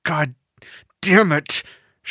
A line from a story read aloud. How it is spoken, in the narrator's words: she moaned